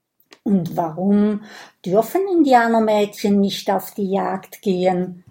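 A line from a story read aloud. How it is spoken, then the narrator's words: Plain. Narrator (German): fragt Kokosnuss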